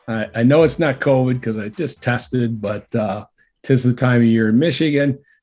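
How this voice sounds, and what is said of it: Gravelly, congested, husky voice. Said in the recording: “I am suffering from seasonal allergies ... my Wolfman Jack impersonation ... the dulcet tones that we were getting today ... Just own that sound.”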